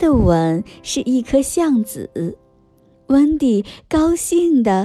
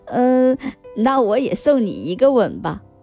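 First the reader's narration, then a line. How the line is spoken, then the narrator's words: Smiling. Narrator (Chinese): 彼得潘笑笑说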